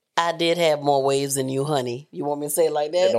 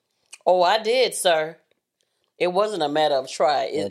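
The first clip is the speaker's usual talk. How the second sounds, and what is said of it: Sarcastic tone. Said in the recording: “That's you being sarcastic.”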